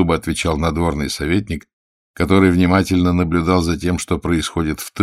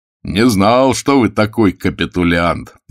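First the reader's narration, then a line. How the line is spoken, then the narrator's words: Cheerful shout. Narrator (Russian): весело прокричал староста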